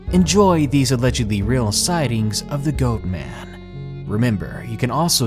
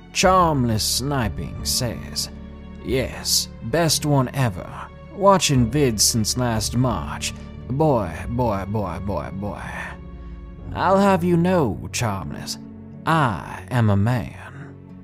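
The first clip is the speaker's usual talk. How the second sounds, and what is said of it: Put-on Southern royal accent. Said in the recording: “in my southern royal accent”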